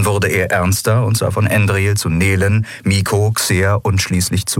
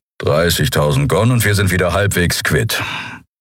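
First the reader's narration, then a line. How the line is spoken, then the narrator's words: Grumbled. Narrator (German): hörte sie Keru brummen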